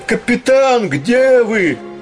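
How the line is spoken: Shouting. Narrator (Russian): Давно уже Летика кричал

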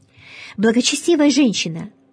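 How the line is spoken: Exclaiming. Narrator (Russian): воскликнул Кандид

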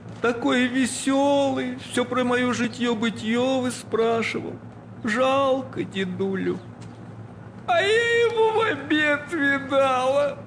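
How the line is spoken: Lamenting sobs. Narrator (Russian): причитая, всхлипывала повалиха

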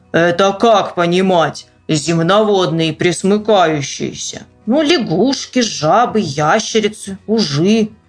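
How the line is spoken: Deep bass male voice. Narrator (Russian): плечистый рабочий с темными усами пробасил

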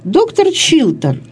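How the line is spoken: Timid address. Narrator (Russian): робко обратилась она

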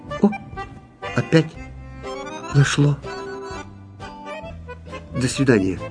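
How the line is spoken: Quiet. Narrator (Russian): сказал тихо

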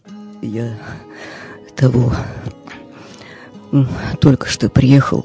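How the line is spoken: Mumbling. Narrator (Russian): бормочет доктор

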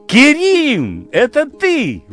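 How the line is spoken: Exclamation. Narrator (Russian): воскликнула Джамиля

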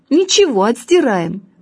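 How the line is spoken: Cheerful reassuring. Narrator (Russian): бодро сказал

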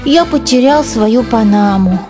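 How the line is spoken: Sad. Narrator (Russian): печально сказал Генри

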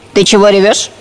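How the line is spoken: Stern question. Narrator (Russian): строго спросила муха

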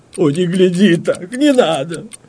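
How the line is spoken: Moaning. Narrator (Russian): простонала графиня

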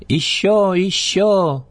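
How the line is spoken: Children shouting excitedly. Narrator (Russian): закричали

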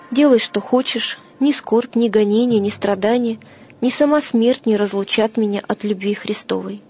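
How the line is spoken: Calm. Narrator (Russian): Феодор спокойно отвечал

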